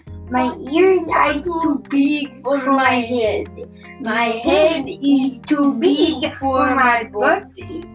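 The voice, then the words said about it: Put-on Spanish accent. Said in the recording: “using his very best Spanish accent”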